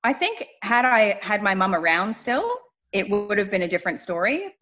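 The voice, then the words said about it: Canadian accent. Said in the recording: “if anyone has picked up the accent, you're not an Australian by birth ... you're a Canadian by birth”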